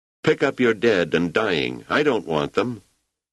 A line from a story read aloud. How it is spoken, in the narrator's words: Rach called out